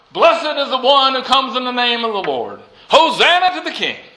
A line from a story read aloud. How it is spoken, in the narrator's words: the people shout